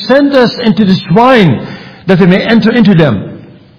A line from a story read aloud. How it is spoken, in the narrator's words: All the devils, or demons, besought, pleaded with him, saying